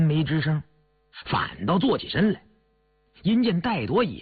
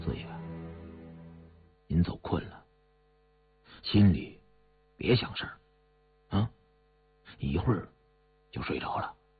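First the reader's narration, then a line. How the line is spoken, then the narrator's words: Soft. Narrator (Chinese): 高福深知他的心事，守在旁边轻声地说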